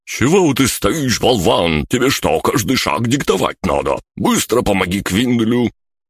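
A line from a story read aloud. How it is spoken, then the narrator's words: Strained, indignant shout. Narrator (Russian): выдавил Бран, возмущенно закричал на Луглио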